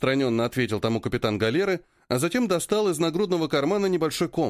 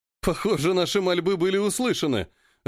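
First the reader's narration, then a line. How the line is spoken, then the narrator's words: Laughing. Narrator (Russian): рассмеялся Алекс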